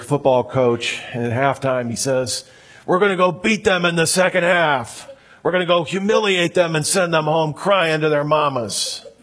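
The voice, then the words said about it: Imitates another person's voice. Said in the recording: “my Al Pacino impression. That's as good as I can do.”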